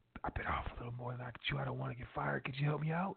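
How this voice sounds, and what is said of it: Quiet whisper. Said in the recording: “I'm going to get quiet, maybe a little whisper.”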